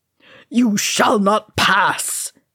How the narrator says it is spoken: he roared

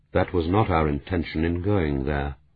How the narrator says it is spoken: Dauncey said quietly

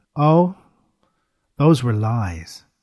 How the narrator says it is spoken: she admitted calmly

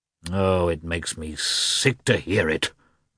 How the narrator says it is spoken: muttered the prince gloomily

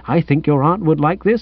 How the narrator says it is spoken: with little chirps of

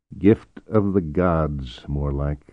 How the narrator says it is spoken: murmured Errol, lost in some appreciation of his own

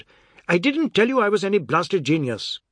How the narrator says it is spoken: shouted

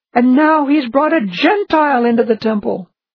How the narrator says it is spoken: Then they shouted

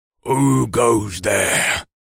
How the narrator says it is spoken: a deep voice bellowed

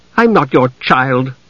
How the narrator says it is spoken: Usha said crossly

